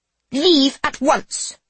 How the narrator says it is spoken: Sophia barks

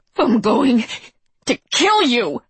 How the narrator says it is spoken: snarled

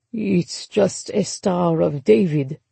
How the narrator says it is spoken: Papa said, his tone strangely flat

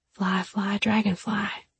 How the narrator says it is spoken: Excitement blazed in her eyes when she whispered just so she could hear

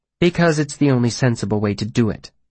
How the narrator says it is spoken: Denna said flatly

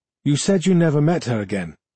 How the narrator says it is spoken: I said

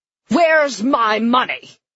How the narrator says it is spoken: a heckler shouted

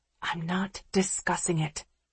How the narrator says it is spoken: I whisper

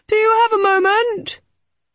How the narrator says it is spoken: he called, his voice echoing along the passageway

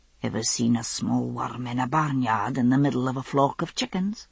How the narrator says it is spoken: he murmured

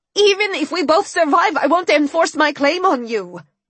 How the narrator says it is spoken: I said desperately

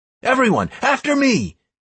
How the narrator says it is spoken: I shouted

